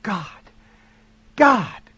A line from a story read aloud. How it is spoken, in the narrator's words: Jody gasped